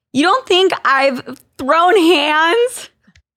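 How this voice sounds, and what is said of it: Valley Girl voice. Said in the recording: “My Valley Girl voice saying throw hands.”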